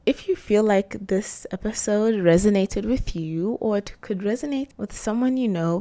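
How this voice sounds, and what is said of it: Strained, fading voice. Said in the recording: “I feel like I'm losing my voice. ... I just feel like I'm losing my voice”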